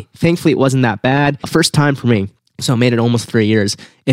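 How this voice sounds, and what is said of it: Slightly nasal, congested voice. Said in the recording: “I sound a little nasal ... or if I'm coughing all over the place”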